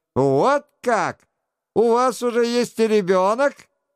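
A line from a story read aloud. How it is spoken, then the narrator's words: Exclaim with spiteful laugh. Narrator (Russian): Прюльер воскликнул, злобно засмеявшись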